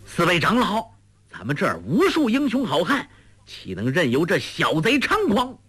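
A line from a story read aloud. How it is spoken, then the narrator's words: Urgent shout. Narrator (Chinese): 嘴里喊得急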